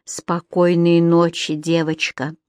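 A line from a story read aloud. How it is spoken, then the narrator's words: Whispered. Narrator (Russian): прошептал Кэмерон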